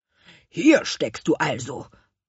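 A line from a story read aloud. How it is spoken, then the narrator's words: Grumbling. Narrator (German): brummte Gurkenhut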